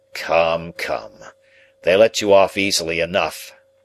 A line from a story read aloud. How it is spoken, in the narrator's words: sneered Drummle